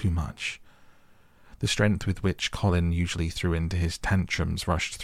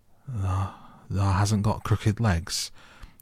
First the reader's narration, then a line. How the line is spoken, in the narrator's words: quavered Ben more hoarsely yet